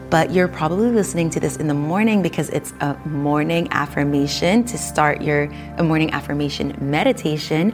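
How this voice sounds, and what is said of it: Smooth, soft, calm voice. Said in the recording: “putting on my affirmation voice, which is a little smoother, a little softer. It's also my yoga instructing voice ... I don't want to go full force, full energy on you just yet ... start your day on a smooth tone”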